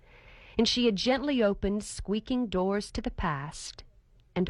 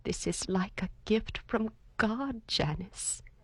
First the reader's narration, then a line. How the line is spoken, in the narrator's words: added softly